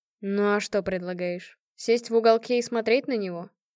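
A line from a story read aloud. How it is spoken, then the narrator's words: Sigh. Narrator (Russian): Я вздохнула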